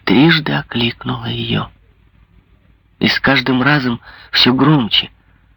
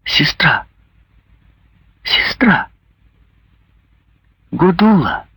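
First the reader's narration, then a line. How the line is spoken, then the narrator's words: Soft, tender voice. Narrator (Russian): сказала Ударда более мягким и ласковым голосом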